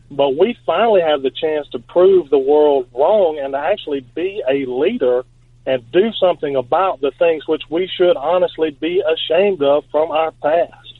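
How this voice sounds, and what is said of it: Southern American Alabama accent. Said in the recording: “mocked and Forrest Gumped all over the world for being where I'm from and having my accent ... the only person in Alabama”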